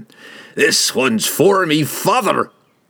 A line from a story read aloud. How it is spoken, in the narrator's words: he cried